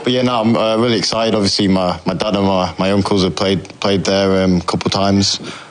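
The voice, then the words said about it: English accent. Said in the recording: “your accent's just hanging on. That English accent just hanging on”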